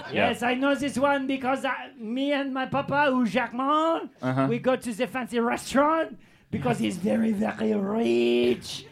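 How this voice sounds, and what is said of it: Put-on French accent. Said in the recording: “I'm French... the accent is bred into me”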